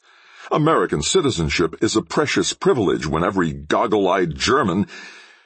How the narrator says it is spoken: His anger choked him

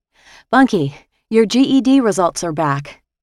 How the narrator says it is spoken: I panted

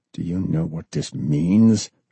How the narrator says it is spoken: John snarled

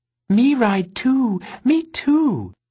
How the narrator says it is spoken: she chirped

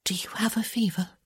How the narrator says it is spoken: she whispered

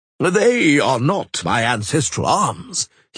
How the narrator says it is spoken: he boomed in explanation

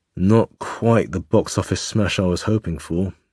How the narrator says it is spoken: Ressing muttered

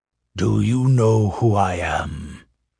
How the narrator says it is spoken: He growled

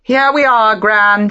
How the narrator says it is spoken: said, raising her voice

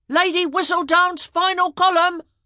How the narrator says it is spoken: they all yelled

